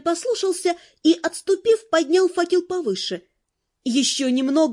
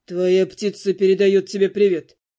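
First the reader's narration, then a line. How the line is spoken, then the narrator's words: Mocking tone. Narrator (Russian): насмешливо сообщил Дэну Дамиан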